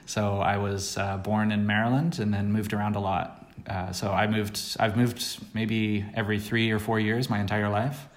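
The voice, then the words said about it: American accent. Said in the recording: “American originally ... the accent doesn't go away”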